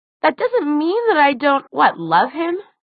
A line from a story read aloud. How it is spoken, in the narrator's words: Alec scoffed, raising his voice